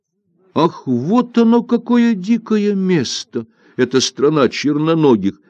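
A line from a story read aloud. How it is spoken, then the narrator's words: Exclaimed. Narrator (Russian): воскликнул Тан-Ао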